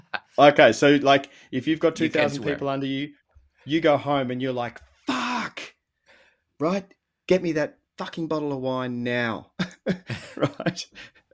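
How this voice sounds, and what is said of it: Australian accent. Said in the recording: “I'm an Aussie ... I love the Aussie accent”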